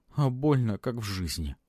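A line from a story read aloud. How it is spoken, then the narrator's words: Sobbing ghost. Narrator (Russian): всхлипывая, ответил призрак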